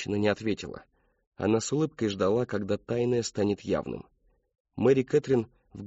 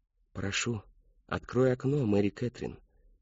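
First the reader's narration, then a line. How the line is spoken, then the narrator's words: Woman's whisper. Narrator (Russian): прошептала женщина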